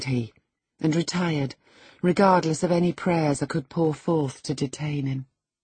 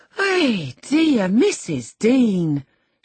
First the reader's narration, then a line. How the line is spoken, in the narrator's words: she exclaimed